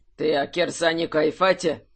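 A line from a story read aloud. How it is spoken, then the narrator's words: Dry question. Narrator (Russian): сухо спросил архимаг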